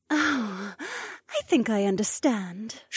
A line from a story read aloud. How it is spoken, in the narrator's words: Shay sighed